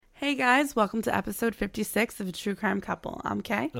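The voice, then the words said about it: Raspy, partly lost voice. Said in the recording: “I sound a little raspy today... I still lost my voice a little bit”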